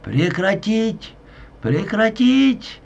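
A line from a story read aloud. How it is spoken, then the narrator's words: Shouting while running. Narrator (Russian): на бегу закричал Алексей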